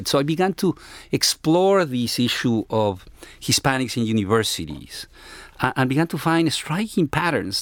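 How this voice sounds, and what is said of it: Speaks English with a noticeable accent. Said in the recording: “my accent, I have an accent”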